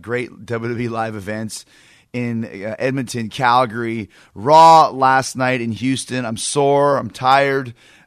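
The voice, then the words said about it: Hoarse, strained voice. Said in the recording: “my voice is shot. It's hoarse. ... Too much yelling over the past week.”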